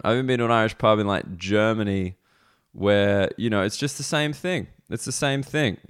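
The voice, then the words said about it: Australian accent. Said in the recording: “we got the Australian comedy show happening ... we do want to hear this accent”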